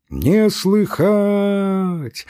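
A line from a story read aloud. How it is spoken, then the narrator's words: Loud sing-song. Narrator (Russian): ответил громко и нараспев Пантелей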